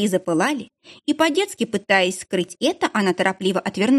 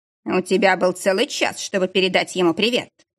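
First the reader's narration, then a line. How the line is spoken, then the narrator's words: Snorting. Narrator (Russian): хмыкнул Алекс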